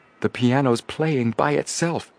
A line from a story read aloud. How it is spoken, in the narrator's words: Joe exclaimed